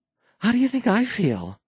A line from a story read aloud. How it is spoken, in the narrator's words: Mara gasped